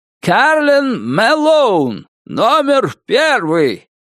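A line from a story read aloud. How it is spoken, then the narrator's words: Loud, shrill announcement. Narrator (Russian): громким и пронзительным голосом возвестил он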